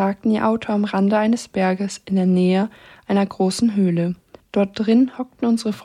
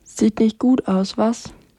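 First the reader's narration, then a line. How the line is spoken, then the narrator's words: Plain question. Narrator (German): fragte Billy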